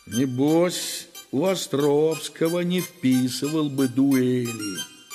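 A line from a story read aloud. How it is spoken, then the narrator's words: Grumbling. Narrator (Russian): ворчал я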